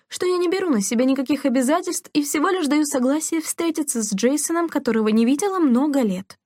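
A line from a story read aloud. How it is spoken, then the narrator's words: Quick addition. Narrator (Russian): быстро добавила Делла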